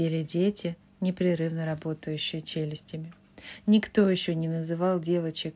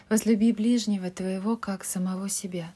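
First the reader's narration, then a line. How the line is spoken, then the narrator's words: Plain. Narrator (Russian): сказала Мэг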